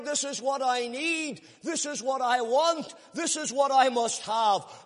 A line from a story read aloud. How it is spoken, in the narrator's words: That man that was burdened with his sin cried